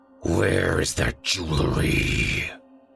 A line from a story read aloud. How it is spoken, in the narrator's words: he snarled